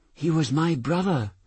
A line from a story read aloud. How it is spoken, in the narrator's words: a little girl said hesitantly, anxiously, as though she had not decided what attitude it would be best to take in front of Ernie